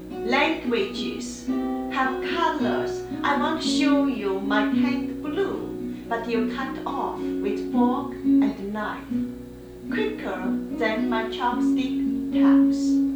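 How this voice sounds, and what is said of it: Non-native English accent. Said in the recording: “my accent. It is charming.”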